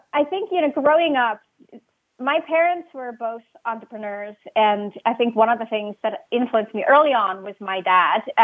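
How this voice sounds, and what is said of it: Swiss accent. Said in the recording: “I was born and raised in Switzerland. You might pick up on my accent.”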